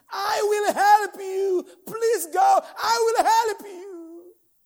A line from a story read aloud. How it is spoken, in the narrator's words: the Holy Ghost scream